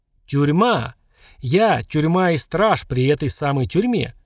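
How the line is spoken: Sighing. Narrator (Russian): Женщина вздохнула

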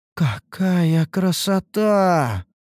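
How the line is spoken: Amazed drawl. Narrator (Russian): протянула изумленная Лейна

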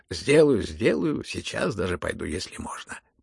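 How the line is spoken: Hurried. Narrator (Russian): прибавил он поспешно

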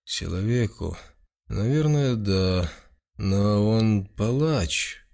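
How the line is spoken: Uncertain confused mumble. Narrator (Russian): Бюргермейстер, еще не совсем понимая, о чем она говорит, неуверенно пробормотал

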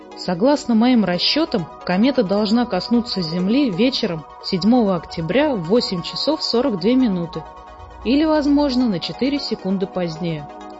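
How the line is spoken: Plain. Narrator (Russian): ответил профессор

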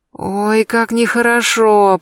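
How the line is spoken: Moaning. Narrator (Russian): простонала я

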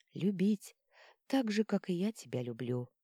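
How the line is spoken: Quiet. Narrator (Russian): ответила тихо

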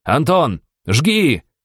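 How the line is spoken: Shouted. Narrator (Russian): прокричал я

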